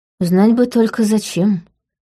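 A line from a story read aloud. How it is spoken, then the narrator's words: Sigh. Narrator (Russian): вздохнула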